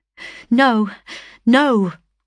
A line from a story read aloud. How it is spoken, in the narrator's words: exclaimed, struggling to free myself from him